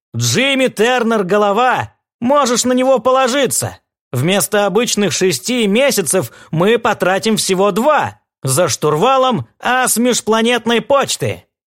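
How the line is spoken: Unpleasant chuckle. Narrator (Russian): Рой неприятно хохотнул

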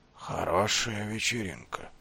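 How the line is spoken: Sleepy snoring mumble. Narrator (Russian): пробормотал он, похрапывая

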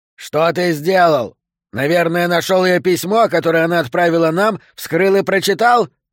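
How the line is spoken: Yelling. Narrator (Russian): заорал Гарри Сантос

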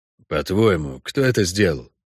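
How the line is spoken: Quiet question. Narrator (Russian): тихо спросил Хорн

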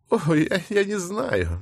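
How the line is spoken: Laughing woman. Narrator (Russian): миссис Джерри даже рассмеялась

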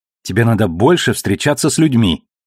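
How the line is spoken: Snapped, slightly guilty. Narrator (Russian): огрызнулась Элви, чувствуя себя немножко виноватой

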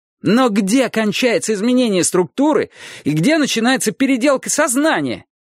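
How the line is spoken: Shouted. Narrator (Russian): закричал Трурль

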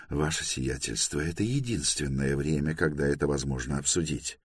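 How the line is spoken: Soft whisper. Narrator (Russian): мягко прошептал Ранду

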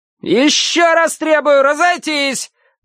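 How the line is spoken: Thin-voiced yelling commander. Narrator (Russian): тонким голосом завопил поп-зоповский командир

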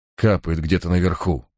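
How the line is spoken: Whispered. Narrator (Russian): прошептал я

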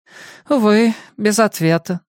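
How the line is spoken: Sigh. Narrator (Russian): вздохнул Чарли

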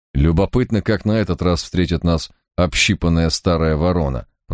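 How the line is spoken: Grumbled. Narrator (Russian): проворчал Барак

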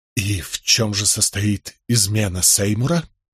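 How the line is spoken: Forced strained words. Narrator (Russian): выдавил я из себя

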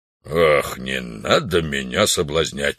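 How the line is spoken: Irritated reply. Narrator (Russian): раздраженно ответил вождь

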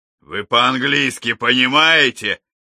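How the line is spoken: Barking snap. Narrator (Russian): рявкнул Алекс

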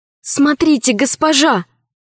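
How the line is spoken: Exclaimed. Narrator (Russian): воскликнула Мариам

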